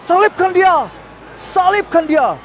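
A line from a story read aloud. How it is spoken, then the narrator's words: Crowd shouting again. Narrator (Indonesian): orang ramai itu berteriak-teriak lagi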